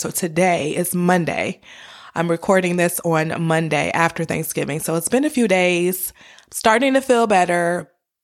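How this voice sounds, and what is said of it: Slightly raspy, hoarse voice. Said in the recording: “my voice may sound a little raspy and not normal”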